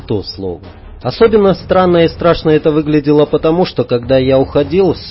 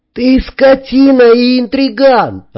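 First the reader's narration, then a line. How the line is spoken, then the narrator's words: Yelling. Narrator (Russian): орал Сергей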